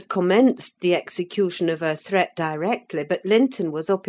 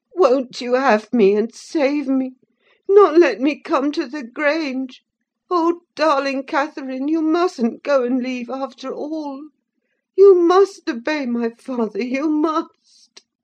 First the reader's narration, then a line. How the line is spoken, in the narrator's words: sobbing